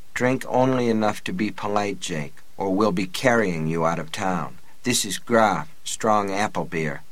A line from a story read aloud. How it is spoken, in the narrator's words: He murmured